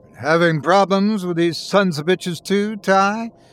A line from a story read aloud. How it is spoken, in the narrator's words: bellowed down the phone